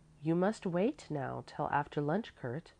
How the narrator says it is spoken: she said kindly

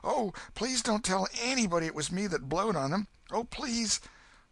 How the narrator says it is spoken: Huck sprang up and exclaimed

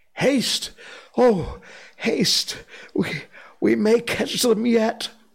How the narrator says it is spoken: Baloo panted

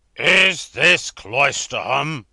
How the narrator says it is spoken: demanded the passenger in a tremendous voice

